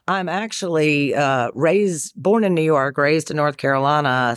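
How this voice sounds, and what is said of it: Southern North Carolina accent. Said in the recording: “you've got an accent. ... It sounds a little Carolina-ish. ... It's a Carolina-ish ... you're starting to drag your words out a little bit.”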